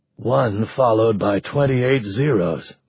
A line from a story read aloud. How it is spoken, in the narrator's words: Mark muttered